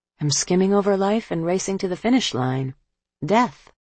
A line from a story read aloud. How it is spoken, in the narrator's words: In a wistful tone, he added